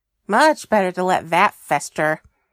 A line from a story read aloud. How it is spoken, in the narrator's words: he said with a scoff